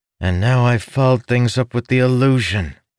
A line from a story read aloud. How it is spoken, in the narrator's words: Ilden groaned